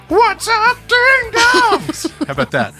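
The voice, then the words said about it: Fake British rock-singer accent. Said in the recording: “fake British accent ... In the style of AC/DC”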